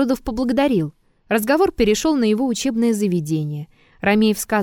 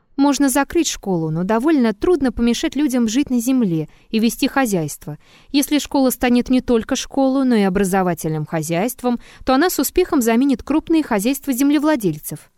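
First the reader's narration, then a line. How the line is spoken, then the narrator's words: Calm. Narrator (Russian): Триродов спокойно говорил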